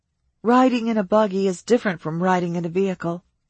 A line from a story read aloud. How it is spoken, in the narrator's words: she said